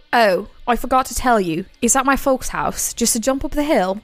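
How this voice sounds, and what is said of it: Put-on slight British accent. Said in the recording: “he used a slight British accent, so that's my best attempt at it ... I love ... British accents”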